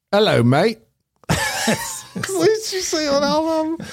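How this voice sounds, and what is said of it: Put-on British accent. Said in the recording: “Give us the accent... British.”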